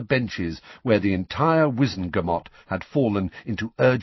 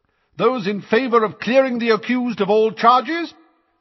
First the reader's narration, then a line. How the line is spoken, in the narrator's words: said Madame Bones's booming voice